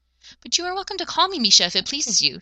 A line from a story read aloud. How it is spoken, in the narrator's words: she squeaked, cowering in her chair